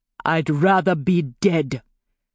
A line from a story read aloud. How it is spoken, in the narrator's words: Besa replied bitterly